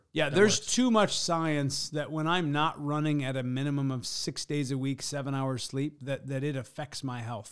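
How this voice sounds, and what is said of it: Slightly hoarse voice. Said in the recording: “My voice is a little hoarse still ... because I've been running too hard, too many session days, and not enough sleep”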